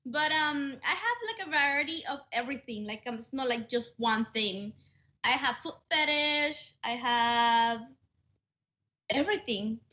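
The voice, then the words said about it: Scottish accent. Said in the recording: “She's got this Scottish accent. I can't understand anything she's saying.”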